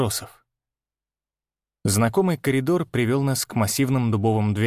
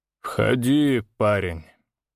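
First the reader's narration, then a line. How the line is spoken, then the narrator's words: Tired baron. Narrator (Russian): устало произнес барон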